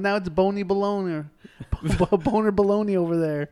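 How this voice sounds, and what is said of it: Poor imitation of another person's voice. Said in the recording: “That is the worst Hank Hill impression I've ever heard.”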